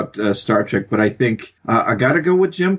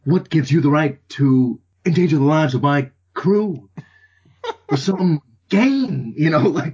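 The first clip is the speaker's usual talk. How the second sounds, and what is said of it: Captain Kirk impression. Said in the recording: “Jim Kirk ... a pretty good impression”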